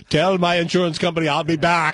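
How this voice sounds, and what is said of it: Poor impression of another person's voice. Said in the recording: “that was the worst Arnold Schwarzenegger impression anybody has ever done ... Both were pretty bad.”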